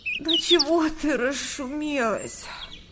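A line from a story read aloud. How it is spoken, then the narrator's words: Grumbling. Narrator (Russian): проворчала Света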